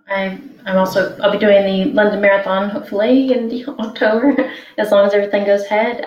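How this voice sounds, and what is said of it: Slightly different accent. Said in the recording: “got a slightly different accent to us”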